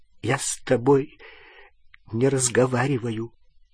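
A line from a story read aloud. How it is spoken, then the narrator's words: Choked voice. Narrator (Russian): сказала она сдавленным голосом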